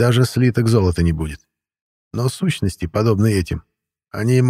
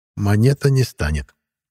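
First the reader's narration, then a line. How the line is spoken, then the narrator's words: Gentle. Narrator (Russian): мягко произнес Карл Августович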